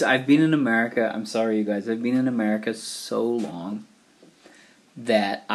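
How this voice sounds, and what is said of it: Usual voice. Nothing is said of it.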